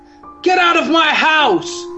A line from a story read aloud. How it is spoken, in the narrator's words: Bruce shouted at the top of his voice